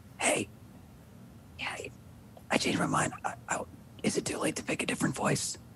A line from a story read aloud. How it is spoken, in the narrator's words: just kind of whisper like